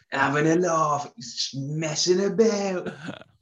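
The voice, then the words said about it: Stereotypical slightly Cockney accent. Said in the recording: “I always go to the stereotypical slightly Cockney accent when we're talking about football.”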